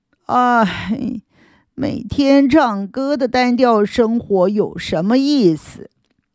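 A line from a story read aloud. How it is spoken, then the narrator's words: Comforting. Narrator (Chinese): 阿辉马上又安慰他说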